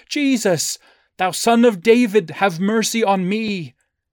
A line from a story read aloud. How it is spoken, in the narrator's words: Eager, lest the opportunity of gaining the master's attention be lost, he immediately cried in a loud voice